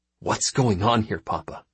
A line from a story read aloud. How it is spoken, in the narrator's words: hissed Condry